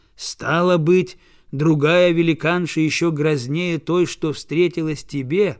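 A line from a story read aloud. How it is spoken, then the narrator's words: Plain. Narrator (Russian): спросили они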